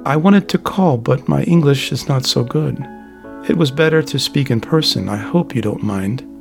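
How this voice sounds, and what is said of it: Foreign accent, broken English. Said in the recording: “Her accent and broken syllables”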